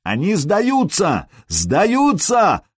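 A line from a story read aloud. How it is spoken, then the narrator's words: Yelling in foreign tongue. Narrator (Russian): заорал Сергей по-нурмански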